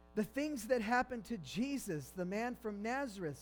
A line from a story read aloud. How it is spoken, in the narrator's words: he said